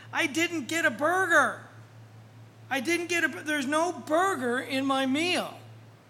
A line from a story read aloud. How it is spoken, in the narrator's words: one youngster yelled from the back